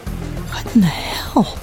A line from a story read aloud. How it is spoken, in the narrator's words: Rachel whispered